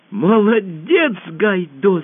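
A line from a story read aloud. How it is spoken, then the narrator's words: Shouting. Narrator (Russian): закричала Алиса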